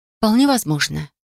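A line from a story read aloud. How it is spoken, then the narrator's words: Soft reply. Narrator (Russian): мягко отозвалась я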